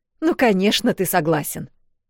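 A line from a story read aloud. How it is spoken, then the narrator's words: Snapped. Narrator (Russian): огрызнулась Вэл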